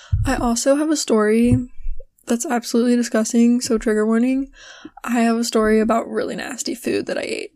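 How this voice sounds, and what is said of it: Hoarse, strained, fading voice. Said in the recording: “losing my voice a lot today ... my voice is like, nah fam, we're taking a break”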